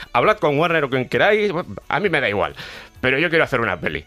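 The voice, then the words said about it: Put-on Cuenca Spanish accent. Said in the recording (Spanish): “acento de Cuenca ... Ese tono de con Kense”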